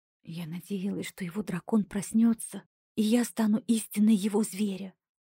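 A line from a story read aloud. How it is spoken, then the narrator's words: Sister's sudden sepulchral whisper. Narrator (Russian): прошептала вдруг загробным голосом моя сестра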